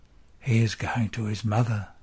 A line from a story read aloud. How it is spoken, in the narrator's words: whispers John